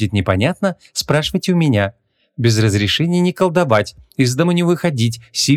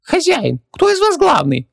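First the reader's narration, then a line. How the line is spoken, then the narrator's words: Squeaked. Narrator (Russian): пропищал Хубаксис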